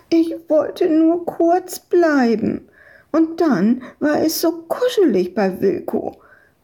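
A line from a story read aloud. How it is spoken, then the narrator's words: Whining. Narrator (German): jammerte Madita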